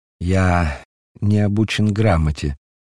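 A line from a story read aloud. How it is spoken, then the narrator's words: Sad reply. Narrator (Russian): ответил Петр грустно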